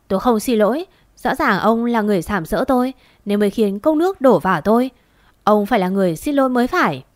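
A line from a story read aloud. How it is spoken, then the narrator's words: Defiant, harsh. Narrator (Vietnamese): Gia Hân không chịu khuất phục, gằn giọng nói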